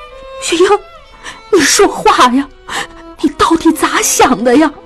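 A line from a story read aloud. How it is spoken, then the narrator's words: Frightened crying. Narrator (Chinese): 江母又怕起来，哭着说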